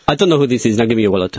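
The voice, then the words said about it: Put-on Indian/Middle Eastern accent. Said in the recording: “That was like an Indian. That was more Indian Middle East.”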